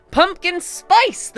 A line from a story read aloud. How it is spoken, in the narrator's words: the fae shouted in rapturous glee